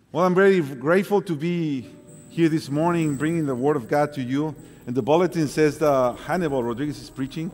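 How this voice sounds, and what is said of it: Broken Mexican accent. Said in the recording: “Mine is a little more a broken Mexican accent.”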